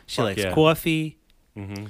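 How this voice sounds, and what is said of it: Attempted Boston accent, sounding Long Island. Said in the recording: “Is this Boston accent that I'm doing? ... No, that's a little more Long Island. ... That's a little Long Island”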